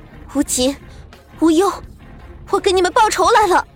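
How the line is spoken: Loud shout. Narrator (Chinese): 他……大喊一声

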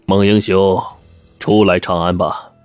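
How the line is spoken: Soft sigh. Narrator (Chinese): 孟虎轻叹道

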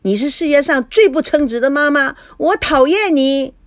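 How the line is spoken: Shouting. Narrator (Chinese): 菲菲喊道

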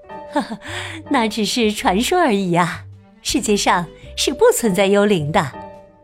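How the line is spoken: Laughing. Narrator (Chinese): 王后卡拉笑着说

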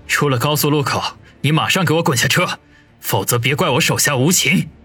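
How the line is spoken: Cold. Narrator (Chinese): 王宇冷声地说道

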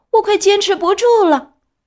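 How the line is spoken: Shouting. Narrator (Chinese): 他喊道

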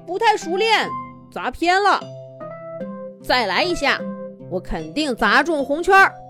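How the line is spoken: Embarrassed shout. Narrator (Chinese): 吊车吊吊不好意思地喊了一声

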